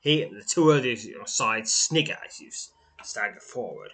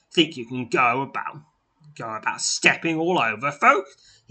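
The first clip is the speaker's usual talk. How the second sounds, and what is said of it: Coarse voice. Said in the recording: “in a coarse voice”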